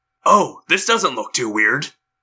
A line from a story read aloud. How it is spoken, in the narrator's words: Tobias muttered